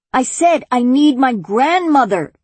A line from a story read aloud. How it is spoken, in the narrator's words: she almost shouted